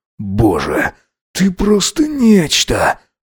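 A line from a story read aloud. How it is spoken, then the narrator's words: Hoarse, trembling voice. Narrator (Russian): прохрипел он, подрагивая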